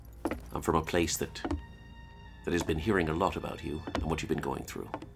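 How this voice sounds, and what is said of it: Put-on Irish accent. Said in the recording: “Are you really Irish? ... No, I'm not. ... But I'll keep this accent up.”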